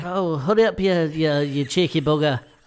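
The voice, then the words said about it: Put-on northern English accent. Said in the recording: “She's got an English accent. ... From Manchester. ... That's from Liverpool.”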